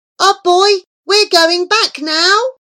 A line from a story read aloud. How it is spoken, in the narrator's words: Remus gave one shout